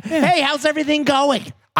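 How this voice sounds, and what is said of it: Yelling a greeting loudly. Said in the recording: “yelling and yay! I'm yelling.”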